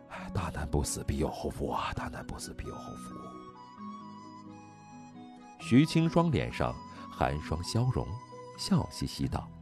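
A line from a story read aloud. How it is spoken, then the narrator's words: Muttering. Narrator (Chinese): 曾乐贤喃喃道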